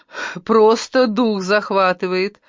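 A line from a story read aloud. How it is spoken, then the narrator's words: Laughing, female. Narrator (Russian): рассмеялась она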